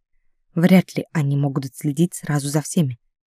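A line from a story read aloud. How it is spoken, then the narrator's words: Quiet reply. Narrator (Russian): так же тихо ответил ей Криит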